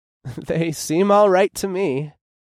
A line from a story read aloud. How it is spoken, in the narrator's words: I chuckled